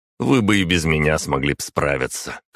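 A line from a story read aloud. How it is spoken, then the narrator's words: Snorting. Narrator (Russian): хмыкнул я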